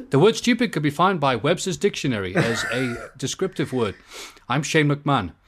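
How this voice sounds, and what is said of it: Wired, computer-like rambling voice. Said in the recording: “doing a very decent impression of someone high on coke ... his voice starts going like a computer”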